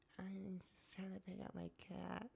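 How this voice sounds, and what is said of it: Impression of Ashlee's voice. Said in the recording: “she sounds like Ashlee ... Can you do an impression?”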